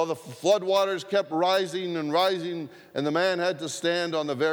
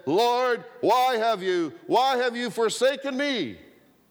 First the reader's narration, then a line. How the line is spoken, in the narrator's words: a huge voice boomed out